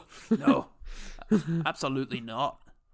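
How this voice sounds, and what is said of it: Attempted Scottish accent. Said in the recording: “I don't know what that accent is. ... It's an English person doing a Scottish one.”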